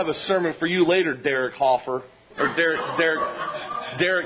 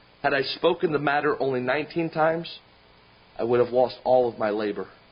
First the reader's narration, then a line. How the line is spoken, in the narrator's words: Susanna Wesley looked calmly at the child and replied